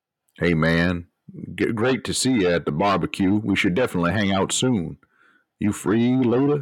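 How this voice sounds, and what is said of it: Put-on dad voice. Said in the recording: “I'm going to have to calibrate my dad voice. It's going to take a little while to get back to what it was”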